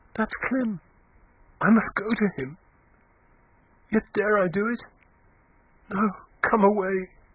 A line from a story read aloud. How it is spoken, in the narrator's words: A confused sob as from a man was heard within, upon which Eustacia gasped faintly